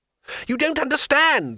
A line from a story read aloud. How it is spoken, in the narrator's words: screamed the tourist above the terrible noise of the wingbeats